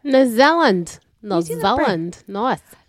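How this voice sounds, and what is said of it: Bad put-on New Zealand accent. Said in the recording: “That's a really bad New Zealand accent.”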